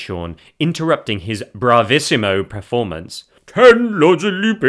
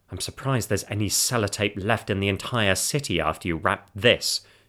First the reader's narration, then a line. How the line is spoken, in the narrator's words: Jane muttered